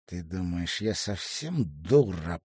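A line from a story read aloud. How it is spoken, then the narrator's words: Hissed. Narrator (Russian): прошипел Элис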